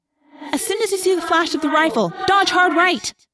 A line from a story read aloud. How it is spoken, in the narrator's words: I yelled